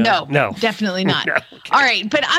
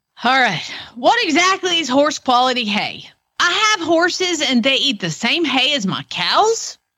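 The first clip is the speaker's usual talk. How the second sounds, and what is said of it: Put-on Oklahoma accent. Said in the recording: “I'm going to have to slip into my Oklahoma. ... Accent, because you can't read this and not hear that.”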